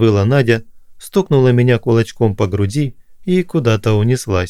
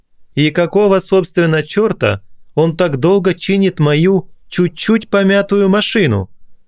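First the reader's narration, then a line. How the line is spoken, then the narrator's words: Shouted after. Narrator (Russian): крикнул вслед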